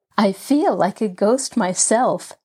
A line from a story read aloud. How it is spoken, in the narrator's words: Nancy chuckled, as she tiptoed past Rosemary's room